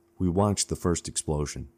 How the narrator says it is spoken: said calmly

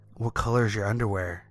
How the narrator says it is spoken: he asked

